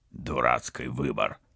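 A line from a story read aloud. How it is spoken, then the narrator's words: Grumbling. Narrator (Russian): проворчал Вадим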